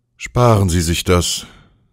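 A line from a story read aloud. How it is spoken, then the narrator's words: Tired man speaking. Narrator (German): sagte der Mann müde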